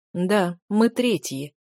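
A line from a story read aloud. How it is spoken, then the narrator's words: Sighing. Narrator (Russian): вздохнул Чен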